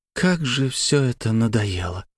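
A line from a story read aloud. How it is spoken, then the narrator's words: Heavy sigh. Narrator (Russian): тяжело вздохнула Славия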